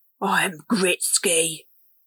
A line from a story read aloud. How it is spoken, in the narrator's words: the lead honey badger announced gruffly